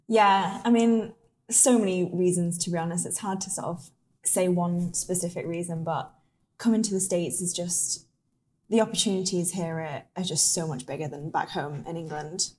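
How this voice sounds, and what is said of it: English accent, Lake District. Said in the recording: “she has an accent. She's from Lake District, England.”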